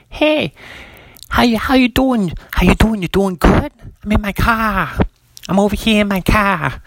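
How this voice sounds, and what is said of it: Attempted Boston accent, not convincing. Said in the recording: “Boston's like ... Boston's tough for me too. I'm not the. If you can't tell, I'm not the best accent impersonator.”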